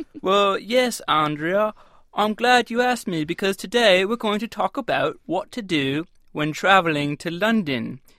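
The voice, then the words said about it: Attempted British accent. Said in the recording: “is that a British accent that you're attempting?”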